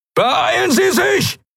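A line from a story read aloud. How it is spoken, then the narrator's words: Shouted. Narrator (German): schrie Helios in den Kubus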